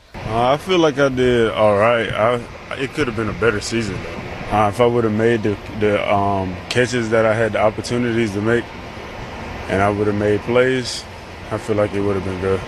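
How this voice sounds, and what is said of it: Deep South American accent. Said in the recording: “it's definitely an accent. He's from the Deep South. ... it's not as bad as some of the clips.”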